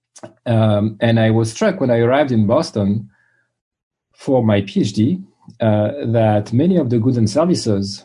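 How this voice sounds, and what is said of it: French accent. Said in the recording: “I grew up in France, as you can tell from my accent”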